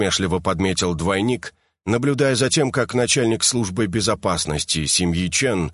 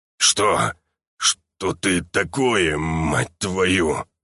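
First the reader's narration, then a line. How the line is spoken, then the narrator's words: Muttered. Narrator (Russian): пробормотал мужчина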